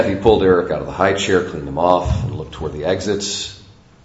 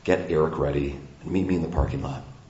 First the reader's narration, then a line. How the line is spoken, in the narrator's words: Her husband imploring Kathy in a low voice